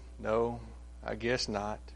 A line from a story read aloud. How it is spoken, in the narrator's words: The Lord sighed and said